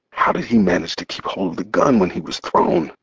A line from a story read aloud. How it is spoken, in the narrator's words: I asked the question under my breath